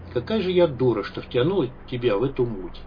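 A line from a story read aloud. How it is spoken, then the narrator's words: Tired. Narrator (Russian): Санта устало произнесла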